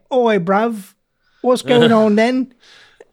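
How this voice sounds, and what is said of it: Different British accent, casual street style. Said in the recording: “she could do like a different British accent”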